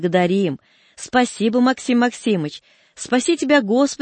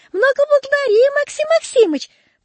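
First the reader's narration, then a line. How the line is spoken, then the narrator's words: Squeaky woman imitating peasant speech. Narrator (Russian): пропищал чей-то женский голос, подделываясь под бабью речь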